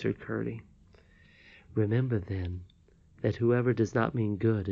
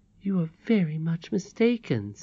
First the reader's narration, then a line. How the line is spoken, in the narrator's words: said the old quavering voice